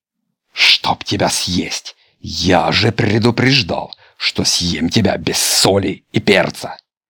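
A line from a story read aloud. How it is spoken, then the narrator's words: Growling wolf. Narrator (Russian): Волк с рычанием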